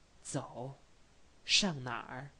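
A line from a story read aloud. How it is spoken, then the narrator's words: Slightly quieter. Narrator (Chinese): 坦克的声音稍微小了一点儿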